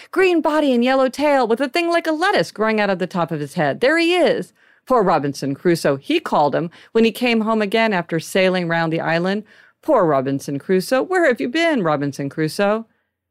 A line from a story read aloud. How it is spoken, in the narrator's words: cried